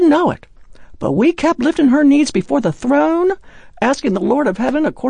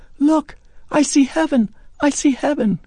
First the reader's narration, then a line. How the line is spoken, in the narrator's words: She was quietly saying